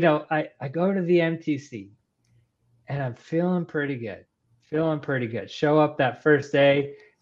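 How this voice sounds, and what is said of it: Texan Southern American accent. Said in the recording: “Am I detecting an accent coming through? ... in the Texas, South anytime? ... identified the accent now. ... When I get excited, my Texan comes out.”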